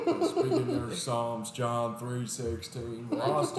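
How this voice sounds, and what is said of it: Usual voice. Nothing is said of it.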